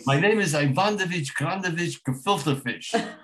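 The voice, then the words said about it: Put-on Jewish accent. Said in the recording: “Can I do it with an accent? ... I did it with a Jewish accent”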